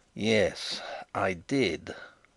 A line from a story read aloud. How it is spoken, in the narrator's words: growled Bertram